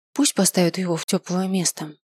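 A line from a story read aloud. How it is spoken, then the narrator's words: Sighing. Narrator (Russian): вздохнул я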